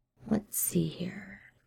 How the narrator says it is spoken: Ed muttered, because the fire had gone out since last night, and he was sweaty and now really very hungry, actually

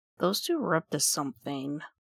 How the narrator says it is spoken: Mia mutters

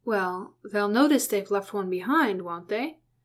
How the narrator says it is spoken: Hamfast glanced up at Keely nervously and lowered his voice

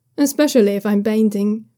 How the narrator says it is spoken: he says with a small laugh

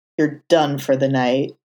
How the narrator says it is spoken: Daredevil growled

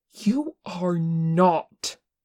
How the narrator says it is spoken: Tenkun said fiercely

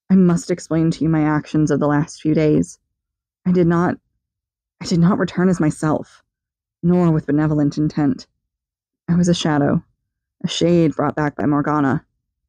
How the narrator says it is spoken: began in a shaky voice

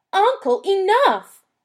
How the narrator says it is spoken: he shouted

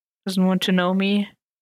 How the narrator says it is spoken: Karen guessed, her tone bitter

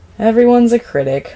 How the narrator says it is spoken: Lloyd sighs

